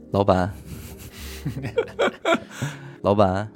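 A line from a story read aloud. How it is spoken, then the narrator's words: Fawning smiling waiter. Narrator (Chinese): 服务生，满脸堆笑的对我说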